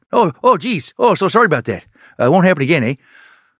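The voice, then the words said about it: Poor put-on Canadian accent. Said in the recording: “that was a lazy, terrible Canadian accent”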